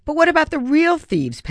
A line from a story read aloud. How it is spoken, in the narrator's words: Palomino wailed